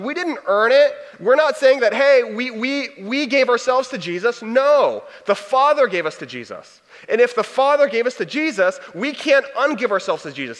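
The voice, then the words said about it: Hyped-up preacher voice. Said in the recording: “I'm getting a little hypey. my preacher voice is coming out a little bit. I'll tone it back a little bit”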